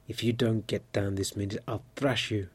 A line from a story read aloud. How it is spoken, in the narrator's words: he cried